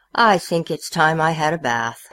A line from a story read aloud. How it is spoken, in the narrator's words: the king himself said rather sadly